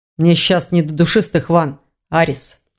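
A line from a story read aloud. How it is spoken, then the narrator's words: Grumbling. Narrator (Russian): проворчал маг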